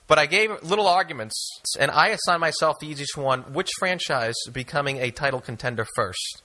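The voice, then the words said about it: Regional accent like John F. Kennedy. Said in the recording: “Your accent gives it away ... As long as I sound like John F. Kennedy”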